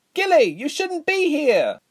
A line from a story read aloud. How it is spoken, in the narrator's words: Resma cried over the noise of battle